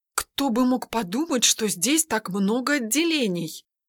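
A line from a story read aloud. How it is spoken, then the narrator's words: Muttering. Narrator (Russian): пробормотала Ведяна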